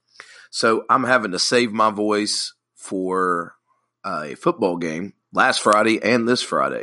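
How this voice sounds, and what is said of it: Sick, under-the-weather voice. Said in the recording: “As you could tell from my voice, under the weather.”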